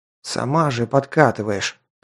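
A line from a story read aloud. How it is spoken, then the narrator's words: Hiss of anger and pain. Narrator (Russian): прошипел я от злости и боли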